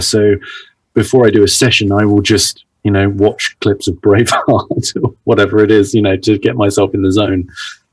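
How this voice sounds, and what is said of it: British RP accent. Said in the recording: “my accent is considered RP, which is received pronunciation ... That's the sort of BBC at London ... that's the accent that I have naturally”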